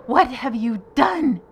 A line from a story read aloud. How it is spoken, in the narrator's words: shrieked